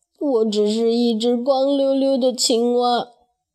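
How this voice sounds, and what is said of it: Quiet, complaining voice. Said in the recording (Chinese): “小声抱怨道”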